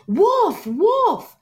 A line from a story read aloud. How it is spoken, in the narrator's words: the boy, he screamed at the top of his lungs